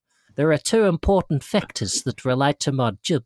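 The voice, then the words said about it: Put-on New Zealand accent, sounding South African. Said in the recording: “use accent, please ... He spent some time in South Africa, by the sound of it. ... This is the most specifically targeted accent I've ever used. ... I've gone to Australia now”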